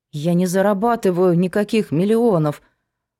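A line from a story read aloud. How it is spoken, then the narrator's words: Timid mumble. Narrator (Russian): робко промямлила она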